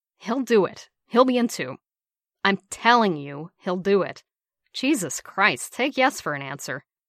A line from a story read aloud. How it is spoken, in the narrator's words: Bucky exclaimed